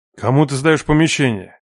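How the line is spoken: Growled. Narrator (Russian): Прорычал он

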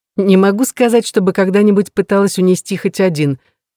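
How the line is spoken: Laughing. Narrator (Russian): рассмеялась Рэйчел

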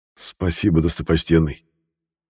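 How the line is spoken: Forced, with a strained smile. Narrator (Russian): выдавил из себя улыбку Юлиан

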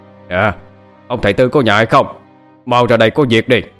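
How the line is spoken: Loud calling. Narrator (Vietnamese): chúng lớn tiếng gọi

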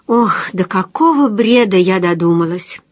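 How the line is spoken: Sighing. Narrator (Russian): вздохнула

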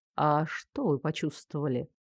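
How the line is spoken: Soft inquiry. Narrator (Russian): мягко осведомился Фарлей

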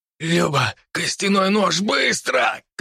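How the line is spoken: Strained hoarse cry. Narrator (Russian): крикнул я, точнее, с трудом прохрипел

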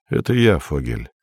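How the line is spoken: Quiet. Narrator (Russian): сказал Андрей негромко

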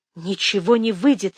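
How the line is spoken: Barely breathed. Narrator (Russian): еле выдохнула она

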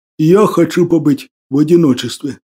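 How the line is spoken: Muffled, dull reply. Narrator (Russian): глухо ответил Василий

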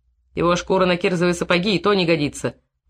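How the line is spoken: Grim joke. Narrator (Russian): мрачно сострил Матяков

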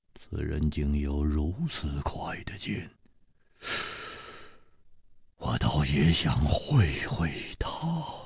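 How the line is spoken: Excited murmur. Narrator (Chinese): 薛衣人的脸上好像泛起了一种兴奋的红光，他喃喃地说

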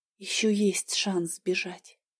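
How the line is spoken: Quiet smirk. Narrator (Russian): усмехнулась тихо

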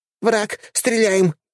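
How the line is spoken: Shouted. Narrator (Russian): выкрикнула водитель

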